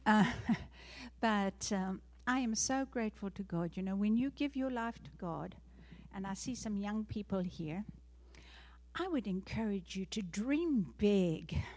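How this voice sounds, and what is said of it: South African accent. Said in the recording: “I am South African born, that's why I have the funny accent.”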